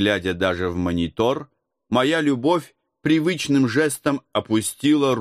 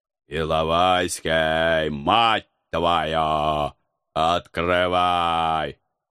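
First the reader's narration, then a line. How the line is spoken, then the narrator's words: Menacing roar. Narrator (Russian): грозно проорав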